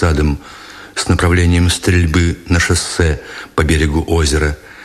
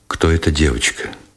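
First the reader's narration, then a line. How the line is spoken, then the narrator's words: Muffled question. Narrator (Russian): глухо спросил Никитин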